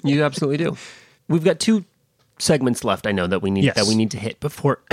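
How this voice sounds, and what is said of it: Sick, choked-up sounding voice. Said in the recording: “I just sounded like I was getting choked up there. Actually, I've just got a little bit of the plague, a little bit of the sickness this week.”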